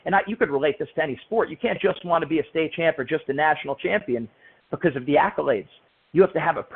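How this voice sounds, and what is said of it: Usual voice. Nothing is said of it.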